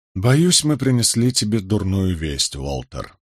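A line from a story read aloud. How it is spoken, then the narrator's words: Soft voice. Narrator (Russian): мягко произнес я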